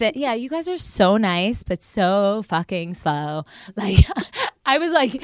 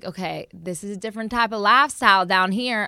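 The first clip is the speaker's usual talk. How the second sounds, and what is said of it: Put-on country accent. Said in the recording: “I don't know why I did country accent”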